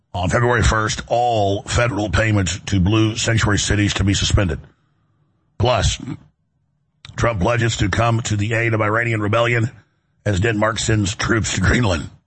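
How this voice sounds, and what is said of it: Hoarse, laryngitis-affected voice. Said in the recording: “My laryngitis, as you can hear, is a lot better. ... is talking like me.”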